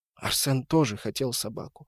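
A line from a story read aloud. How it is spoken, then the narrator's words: Sudden whisper, grandmother. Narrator (Russian): вдруг зашептала бабушка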